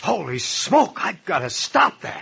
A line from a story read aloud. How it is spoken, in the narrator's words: He gasped